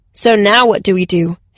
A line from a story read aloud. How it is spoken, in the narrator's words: Hashi growled